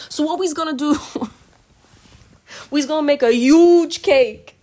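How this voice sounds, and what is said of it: Put-on accent imitating another person. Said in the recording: “I'm gonna cut the accent”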